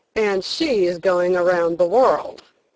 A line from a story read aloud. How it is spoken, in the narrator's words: one man said sneeringly